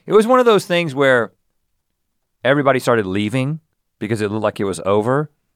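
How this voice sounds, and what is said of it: Raspy, strained voice. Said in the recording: “lost my voice ... you were real raspy”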